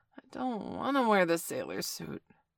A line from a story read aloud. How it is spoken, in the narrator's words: Bailey groaned, his eyes still shut